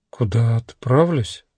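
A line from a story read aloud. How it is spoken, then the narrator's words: Woman's uncertain question. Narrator (Russian): неуверенно переспросила женщина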